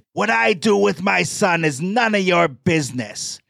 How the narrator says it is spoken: Jose then shouted

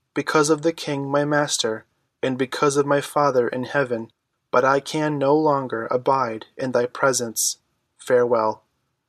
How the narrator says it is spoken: he said in his clear childish voice

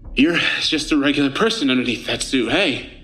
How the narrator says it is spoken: Jack said, panting

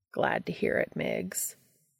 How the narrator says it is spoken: Castiel said solemnly

